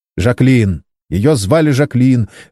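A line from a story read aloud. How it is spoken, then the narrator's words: Sharp reply. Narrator (Russian): резко ответил Саймон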